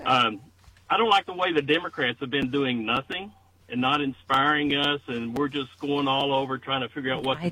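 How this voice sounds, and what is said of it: Kentucky accent. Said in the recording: “you can tell my Kentucky accent, even though I'm from Ohio”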